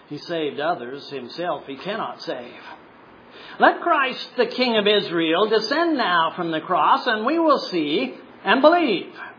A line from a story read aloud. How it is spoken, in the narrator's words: the chief priests, mocking, said among themselves with the scribes